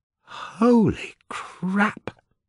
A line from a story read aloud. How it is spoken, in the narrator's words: gasped